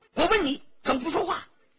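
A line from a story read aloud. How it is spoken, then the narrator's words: Furious. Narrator (Chinese): 周启大怒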